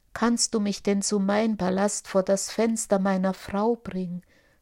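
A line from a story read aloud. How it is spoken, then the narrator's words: Plain. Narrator (German): fragte Aladdin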